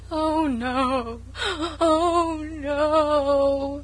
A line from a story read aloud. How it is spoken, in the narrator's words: wailed Sarah Ray lugubriously